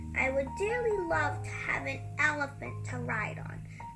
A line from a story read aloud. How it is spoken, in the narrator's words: the BFG said dreamily